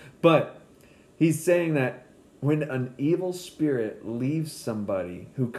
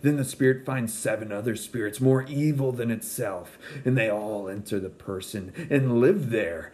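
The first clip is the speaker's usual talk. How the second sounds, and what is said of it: Spooky Halloween-style reading voice. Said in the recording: “read it in my Halloween voice. It may not have been good”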